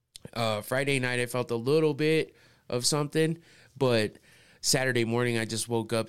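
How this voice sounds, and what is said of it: Sick, slightly nasal voice. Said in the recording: “I'm sure you hear it in my voice a little bit... I probably sound a little nasally”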